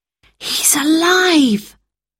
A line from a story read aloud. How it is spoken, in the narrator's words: gasped Roberta, and started to cry